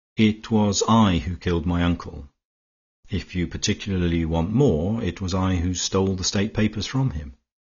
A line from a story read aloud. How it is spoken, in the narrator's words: There was no sound for a space but the happy chatter of the birds, and then Horne Fisher said calmly